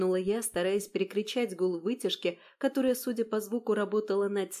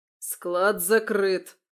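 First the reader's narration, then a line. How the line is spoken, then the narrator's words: Barked. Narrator (Russian): рявкнул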